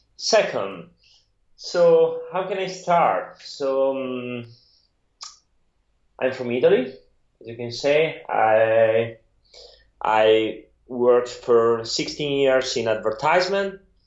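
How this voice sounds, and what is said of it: Italian-accented English. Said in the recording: “my weird Italian accent”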